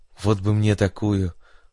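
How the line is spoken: Wistful sigh. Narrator (Russian): выдал свои сокровенные мысли позитрон, вздохнув

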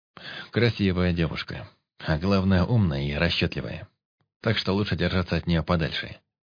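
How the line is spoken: Plain. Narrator (Russian): ответил ему Алекс

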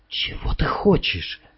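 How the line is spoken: Quiet. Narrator (Russian): тихо спросил он

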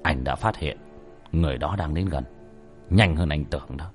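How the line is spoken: Stern. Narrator (Vietnamese): Bác cổ nghiêm giọng

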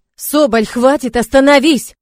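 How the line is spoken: Shouting. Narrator (Russian): кричали

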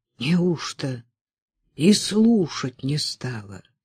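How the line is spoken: Heavy voice. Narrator (Russian): тяжелым своим голосом спрашивал Жгутов

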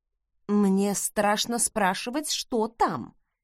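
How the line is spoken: Quiet drawl. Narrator (Russian): тихо протянула я

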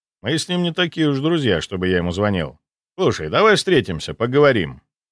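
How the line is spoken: Friendly. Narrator (Russian): предложил я дружелюбным тоном

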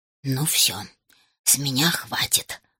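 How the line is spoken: Irritated whisper from backpack. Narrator (Russian): раздраженно прошептал в рюкзаке Гус

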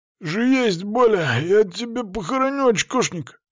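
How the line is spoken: Wheezing backpack. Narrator (Russian): сипел рюкзак

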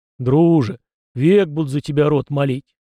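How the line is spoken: Loud wailing howl. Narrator (Russian): взвыл белугой кузнец

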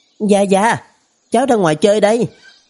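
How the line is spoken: Excited loud shout. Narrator (Vietnamese): kích động chạy ra bên ngoài, trong miệng hét lớn

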